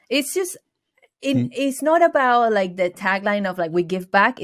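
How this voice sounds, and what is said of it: Venezuelan Spanish accent. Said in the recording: “I have an accent, that I'm from Venezuela”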